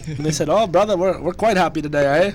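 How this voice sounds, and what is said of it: Bad put-on Canadian accent. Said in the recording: “the worst Canadian accent I've ever heard”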